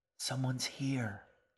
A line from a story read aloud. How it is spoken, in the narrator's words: G whispered